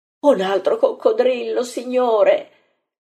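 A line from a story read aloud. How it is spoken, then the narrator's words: Terrified moaning woman. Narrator (Italian): geme Marta terrorizzata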